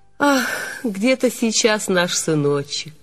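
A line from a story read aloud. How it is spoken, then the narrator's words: Heavy sigh. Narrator (Russian): Мать тяжело вздохнула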